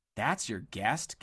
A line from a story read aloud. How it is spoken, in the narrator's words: gasped Dilly in horror